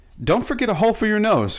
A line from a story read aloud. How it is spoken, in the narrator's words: cried Betsy